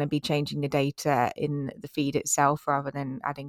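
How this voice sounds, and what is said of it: Usual voice. Nothing is said of it.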